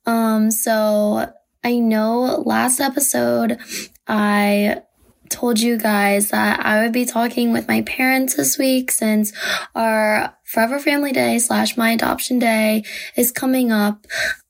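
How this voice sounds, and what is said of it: Hoarse, weakened voice. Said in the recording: “as you can hear, I kind of lost my voice this past week.”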